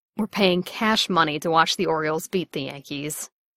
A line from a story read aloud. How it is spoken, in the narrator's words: Bucky added savagely